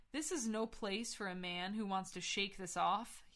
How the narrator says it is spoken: he growled

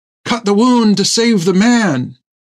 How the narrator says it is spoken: Thegum cried again

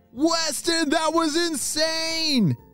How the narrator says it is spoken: shouted his friends

